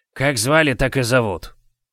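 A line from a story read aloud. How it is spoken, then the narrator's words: Rude curt retort. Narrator (Russian): грубо отрезал тот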